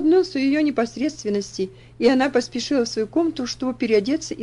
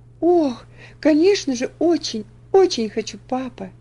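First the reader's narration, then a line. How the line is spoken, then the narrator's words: Joyful reply. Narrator (Russian): радостно ответила она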